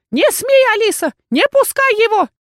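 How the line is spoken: Shout. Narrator (Russian): было выкрикнуто

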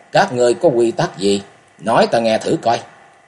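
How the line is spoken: Cold. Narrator (Vietnamese): Tư Đồ Văn lạnh lùng

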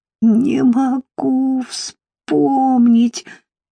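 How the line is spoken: Moaning. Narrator (Russian): стонала она

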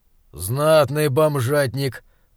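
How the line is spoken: Muttered under breath. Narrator (Russian): пробурчал себе под нос Раптор

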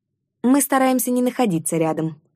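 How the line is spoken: Snapping retort. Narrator (Russian): огрызнулась я

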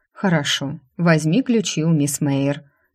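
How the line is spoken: Perfectly calm lady. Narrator (Russian): леди говорила по-прежнему абсолютно спокойно

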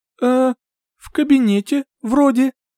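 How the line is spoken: Uncertain reply. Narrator (Russian): неуверенно ответила

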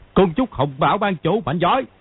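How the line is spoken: Beggar yelling from crowd. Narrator (Vietnamese): Từ trong đám đông, một gã khất cái gào to

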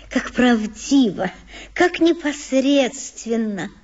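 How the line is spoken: Whisper to herself. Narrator (Russian): прошептала она, словно про себя

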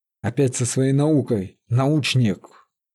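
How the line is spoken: Quiet snort. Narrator (Russian): Василина тихо захрапела

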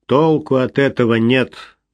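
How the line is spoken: Gloomy male voice. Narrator (Russian): мрачно произнес он

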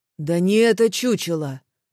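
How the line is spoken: Irritated young man's tut. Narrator (Russian): раздраженно цыкнул парень

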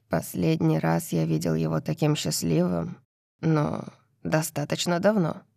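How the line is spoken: Quiet, mirthless voice. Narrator (Russian): тихо говорит Кит, и из его голоса исчезают все следы веселья

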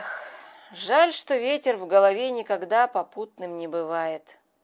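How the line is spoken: Sigh. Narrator (Russian): вздохнул он наконец

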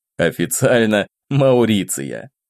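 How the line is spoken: Laughing. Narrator (Russian): рассмеялся я

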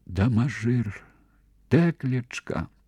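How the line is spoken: Mother's whisper. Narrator (Belarusian): шаптала маці

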